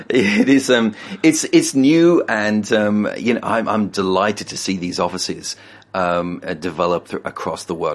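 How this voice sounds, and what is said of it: British accent. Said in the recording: “UK office in Britain ... besides our accent”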